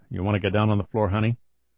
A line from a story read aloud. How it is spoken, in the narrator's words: Kelly said as quietly as he could manage